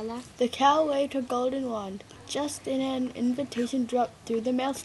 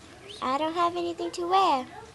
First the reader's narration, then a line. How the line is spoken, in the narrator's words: whined Cinderella